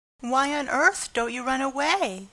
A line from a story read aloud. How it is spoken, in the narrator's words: exclaimed the horrified Pigling